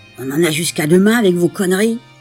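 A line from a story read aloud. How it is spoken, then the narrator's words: Grumbled. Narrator (French): a grogné quelqu'un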